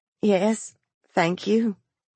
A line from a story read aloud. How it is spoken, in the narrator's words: the mother said faintly